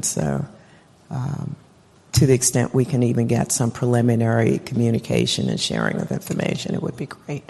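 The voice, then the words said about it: Hoarse, fading voice. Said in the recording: “I'm sorry I'm losing my voice here”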